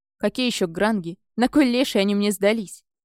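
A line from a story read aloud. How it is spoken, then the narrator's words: Old man growling. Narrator (Russian): прорычал дед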